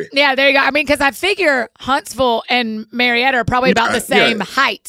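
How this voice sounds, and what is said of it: Southern US accent. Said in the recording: “a genuine Southern accent”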